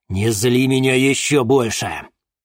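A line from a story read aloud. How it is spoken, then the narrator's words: Menacing. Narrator (Russian): грозно проговорил Денис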